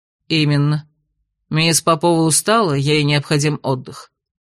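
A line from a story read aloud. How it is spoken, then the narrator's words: Cold explanation. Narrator (Russian): холодно пояснил Ладенье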